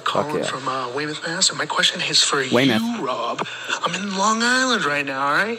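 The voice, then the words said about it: Strong Massachusetts accent, game-show voice. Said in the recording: “that dude was more Weymouth than Weymouth itself. Like, his accent... He's a good game show voice... Maybe a little hard.”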